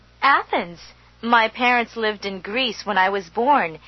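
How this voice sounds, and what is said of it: Slightly different, non-local accent. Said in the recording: “your accent is somewhat different.”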